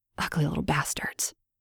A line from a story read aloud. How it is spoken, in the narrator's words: I said under my breath